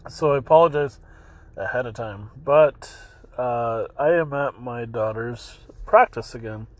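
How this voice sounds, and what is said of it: Hoarse voice with some coughing. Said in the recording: “having a throat that uh, still is a little hoarse and a little bit of coughing”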